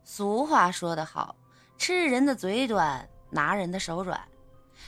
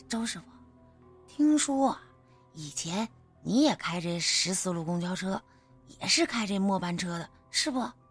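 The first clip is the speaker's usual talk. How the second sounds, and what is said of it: Quiet, hushed voice. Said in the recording (Chinese): “小声的”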